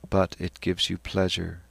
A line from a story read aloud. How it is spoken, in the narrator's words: said Stephen calmly